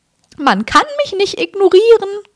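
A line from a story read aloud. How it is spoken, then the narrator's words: Shrieked. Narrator (German): kreischte Peeves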